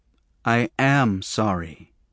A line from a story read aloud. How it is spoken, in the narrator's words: he said quietly